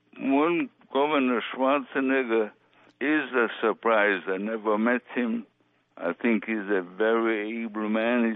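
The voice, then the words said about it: Charming Austrian accent. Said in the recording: “with your background in Vienna, a governor who shares your charming accent ... the only thing we share is the accent. He even comes from a totally different part of Austria.”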